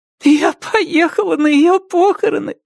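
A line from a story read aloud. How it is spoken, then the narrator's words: Sobbing. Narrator (Russian): рыдала Рэйчел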